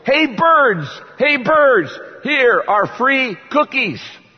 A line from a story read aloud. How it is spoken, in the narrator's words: Frog shouted in a loud voice